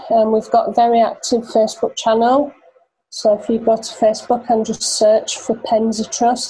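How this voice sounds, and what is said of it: Yorkshire accent, monotone drone. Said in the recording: “my Yorkshire monotone drone”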